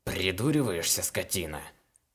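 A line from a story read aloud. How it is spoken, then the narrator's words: Robber's growl. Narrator (Russian): Рыкнул разбойник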